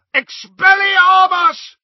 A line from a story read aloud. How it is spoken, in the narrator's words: he roared